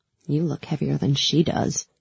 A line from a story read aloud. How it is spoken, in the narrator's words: I muttered